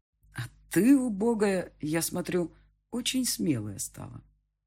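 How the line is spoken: Insinuating voice. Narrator (Russian): сказал он таким вкрадчивым голосом

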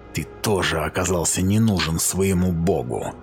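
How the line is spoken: Whisper. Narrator (Russian): прошептал я

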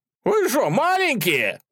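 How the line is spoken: Group yelling. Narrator (Russian): заорали

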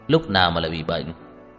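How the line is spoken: Cold. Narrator (Vietnamese): Tưởng Thiên Lỗi lạnh lùng nói

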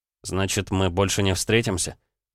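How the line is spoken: Melancholy mutter. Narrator (Russian): пробормотал он тоскливо

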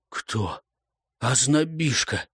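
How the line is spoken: Hoarse rasp. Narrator (Russian): прохрипел Вьялец

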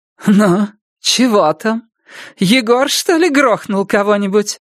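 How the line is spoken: Hoarse drunken giggle. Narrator (Russian): Элла хрипло хихикнула, она пьянее, чем кажется

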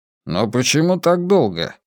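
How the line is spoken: Grumbled. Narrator (Russian): проворчал Левин

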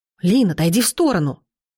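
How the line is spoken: Exclaimed. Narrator (Russian): воскликнул Бреннан

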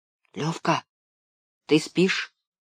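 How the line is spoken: Quiet question. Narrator (Russian): тихо спросил я

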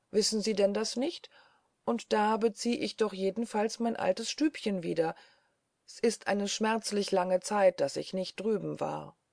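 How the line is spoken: Calling out. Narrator (German): rief Schwibus

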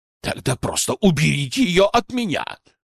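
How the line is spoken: Irritated bark. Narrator (Russian): раздраженно рявкнул Жадов

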